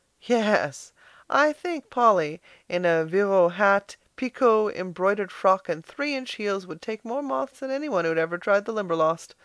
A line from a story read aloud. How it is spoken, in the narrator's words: laughed Philip